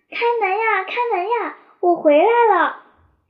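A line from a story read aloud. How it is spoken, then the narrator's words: Loud urgent shouting. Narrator (Chinese): 秋曼 大声地喊着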